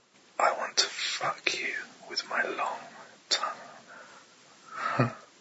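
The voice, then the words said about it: Whispering. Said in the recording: “you can hear me whisper to you”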